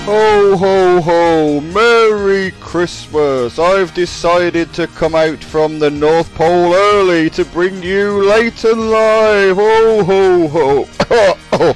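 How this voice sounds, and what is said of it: Jolly Santa Claus character voice. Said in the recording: “I don't know why I did that voice ... it's not Santa Claus”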